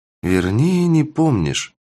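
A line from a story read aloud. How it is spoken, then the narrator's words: Heavy sigh, witch. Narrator (Russian): тяжело вздохнула ведьма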